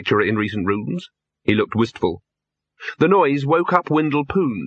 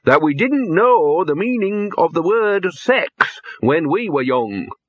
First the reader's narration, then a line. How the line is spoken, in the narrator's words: he said loudly